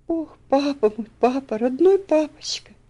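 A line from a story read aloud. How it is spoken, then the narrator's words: Sobbing. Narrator (Russian): всхлипывала она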